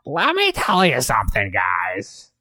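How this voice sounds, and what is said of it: Gilbert Gottfried impression as Iago. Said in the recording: “Can you do a Gilbert Gottfried impression? ... Yeah, that's pretty good. ... Yeah, no, I can hear it. It's definitely Iago.”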